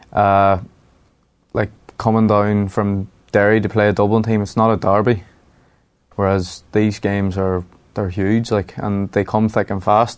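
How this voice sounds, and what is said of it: Derry accent, not a Dublin one. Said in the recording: “people may not know by your accent, your dad is actually a Dub”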